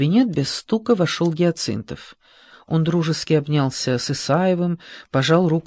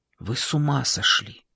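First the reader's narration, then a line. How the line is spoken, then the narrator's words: Quiet. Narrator (Russian): тихо сказал цензор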